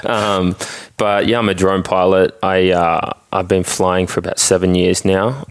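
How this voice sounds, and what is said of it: Australian accent. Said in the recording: “I'm from Australia. Um, if you can't tell by the accent.”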